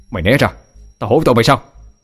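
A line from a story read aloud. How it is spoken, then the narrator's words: Roaring. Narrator (Vietnamese): Định Thiên gầm lên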